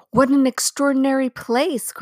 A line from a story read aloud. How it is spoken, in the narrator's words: cried Lucy